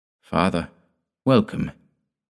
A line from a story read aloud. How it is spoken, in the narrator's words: murmured his daughter-in-law in a barely audible voice